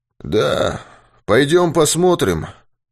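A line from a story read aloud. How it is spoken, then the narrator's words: Hoarse suggestion. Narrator (Russian): хриплым голосом предложил Юрковский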